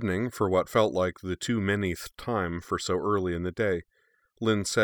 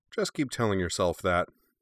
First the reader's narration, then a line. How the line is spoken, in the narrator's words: she said cheerfully